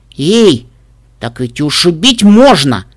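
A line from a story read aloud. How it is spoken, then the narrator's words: Shout, female. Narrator (Russian): крикнула она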